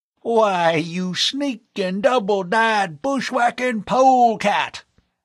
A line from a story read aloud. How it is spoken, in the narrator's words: the old Westerner bellowed